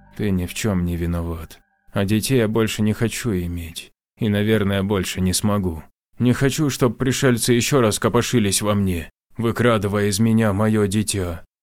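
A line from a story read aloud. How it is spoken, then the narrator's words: Sad reply. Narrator (Russian): Она грустно ответила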